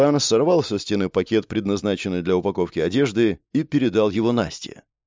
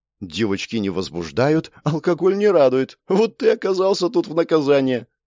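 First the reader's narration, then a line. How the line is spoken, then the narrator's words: Laughing. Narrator (Russian): посмеялась Настя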